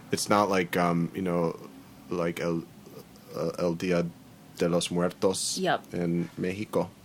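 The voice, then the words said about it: Poor put-on Spanish accent. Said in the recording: “That was a terrible accent.”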